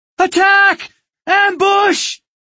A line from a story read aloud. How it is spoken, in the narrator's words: his mother scream from the front of the cabin